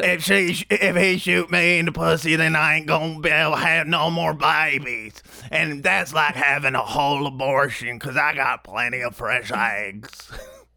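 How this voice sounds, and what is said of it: Imitates another person's voice. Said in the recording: “I just did a perfect impression”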